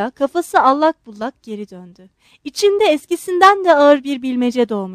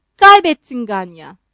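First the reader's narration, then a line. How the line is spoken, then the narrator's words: Shouted. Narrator (Turkish): diye bağırdı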